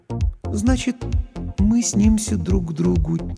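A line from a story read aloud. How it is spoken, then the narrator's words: Quiet repetition. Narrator (Russian): тихо повторила Лана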